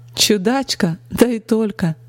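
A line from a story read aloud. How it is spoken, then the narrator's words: Cheerful laughter. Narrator (Russian): Весело рассмеялась она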